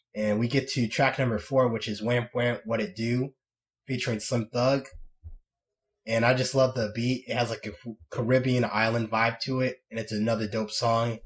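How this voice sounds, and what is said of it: Raspy voice, sore throat. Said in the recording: “I have a sore throat ... my voice sounds a lot more raspy”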